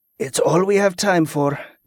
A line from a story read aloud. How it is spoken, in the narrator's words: Tico sighed